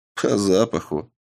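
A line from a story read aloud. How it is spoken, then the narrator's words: Snort, then explaining. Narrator (Russian): хмыкнул Сав и пояснил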